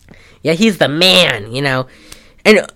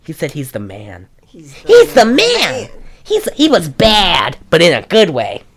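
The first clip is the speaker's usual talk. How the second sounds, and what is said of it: Imitates another person's voice. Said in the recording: “my Kirk Cameron impression”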